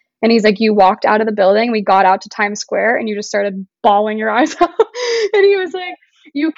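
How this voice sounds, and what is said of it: Usual voice. Nothing is said of it.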